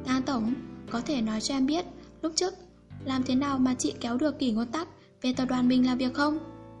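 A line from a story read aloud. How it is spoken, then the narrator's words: Hesitant soft reply. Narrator (Vietnamese): một lúc lâu sau mới khẽ lên tiếng đáp lại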